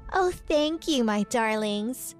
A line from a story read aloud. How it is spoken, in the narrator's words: said Whitney in a sweet voice